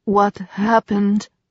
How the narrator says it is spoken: asked, his voice unsteady

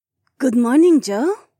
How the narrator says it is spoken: Jessamine chirped

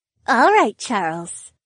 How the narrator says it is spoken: Valerie purred

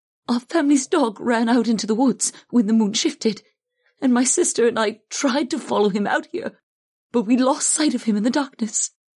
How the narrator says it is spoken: explained in a trembling voice

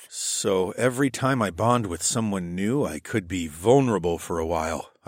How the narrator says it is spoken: I murmured

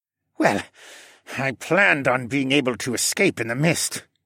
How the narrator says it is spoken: Dolian muttered

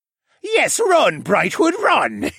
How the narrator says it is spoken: Vane laughed hysterically

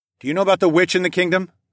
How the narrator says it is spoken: I called out to the young woman

